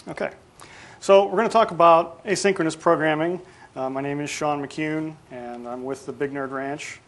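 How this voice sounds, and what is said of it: Hoarse voice. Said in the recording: “You'll have to deal with my voice a little bit today. My allergies have been acting up, so if I sound hoarse”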